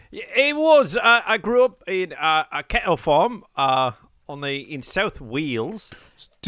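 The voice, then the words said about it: Mixed Australian and English put-on accent. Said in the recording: “Originally from Australia, and then I moved to England, so why I've got a bit of a topsy-turvy accent”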